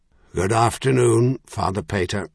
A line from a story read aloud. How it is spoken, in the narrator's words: Merlin said in his deep voice